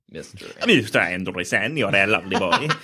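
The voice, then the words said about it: Imitates another person's voice. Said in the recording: “impersonation of Hugo Weaving ... It's like if I close my eyes, he was right here in this room.”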